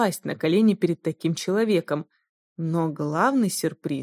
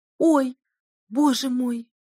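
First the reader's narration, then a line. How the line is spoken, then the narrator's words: Frightened exclamation. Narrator (Russian): воскликнула Реттель испуганным тоном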